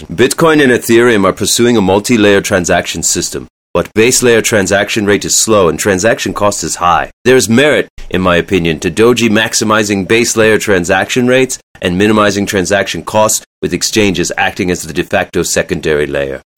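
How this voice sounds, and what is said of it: Elon Musk impression. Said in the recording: “I'm going to do an Elon impression.”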